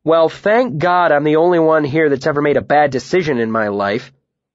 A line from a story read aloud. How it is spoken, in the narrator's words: I said, barely keeping my voice this side of a shout